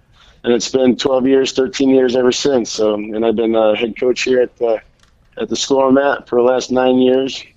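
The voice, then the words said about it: Strained, worn-out voice. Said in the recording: “Sorry about my voice, but I just came off the practice field. ... Yelling.”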